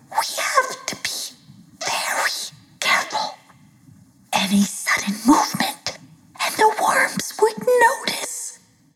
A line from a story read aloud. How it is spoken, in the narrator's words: He whispered